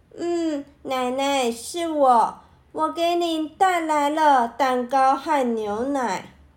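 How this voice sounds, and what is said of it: Nasal voice imitating Little Red Riding Hood. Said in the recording (Chinese): “捏着鼻子，学小红帽的声音说”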